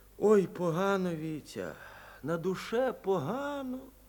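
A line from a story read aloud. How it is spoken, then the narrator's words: Quiet confession. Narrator (Russian): тихо признался Андрей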